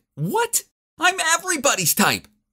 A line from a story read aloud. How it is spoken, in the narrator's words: She shouted back